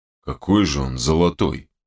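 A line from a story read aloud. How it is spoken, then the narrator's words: Grumbled. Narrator (Russian): проворчал Данила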